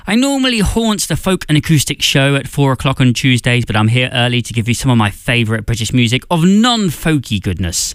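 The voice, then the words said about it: British accent. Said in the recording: “as you might guess from the accent, I am British”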